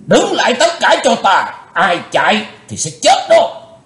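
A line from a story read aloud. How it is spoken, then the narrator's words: Loud shout. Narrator (Vietnamese): Lão cục tài quát lớn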